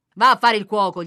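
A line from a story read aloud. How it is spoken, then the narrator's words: Shouting. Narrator (Italian): gridano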